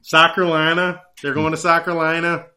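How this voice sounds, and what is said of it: Weak put-on Southern accent. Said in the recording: “We're going Southern accent for this. ... Southern accent. ... Is that a Southern accent? ... That wasn't a very good Southern accent,”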